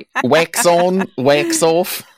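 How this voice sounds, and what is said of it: Put-on Kiwi-sounding accent. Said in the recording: “Did they dub it into an Australian accent? ... Sounded a little more Kiwi.”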